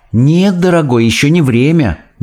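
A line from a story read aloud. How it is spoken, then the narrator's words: Soft reply. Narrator (Russian): мягко отвечала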